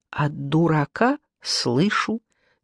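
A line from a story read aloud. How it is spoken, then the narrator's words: Quiet reply. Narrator (Russian): тихо ответила она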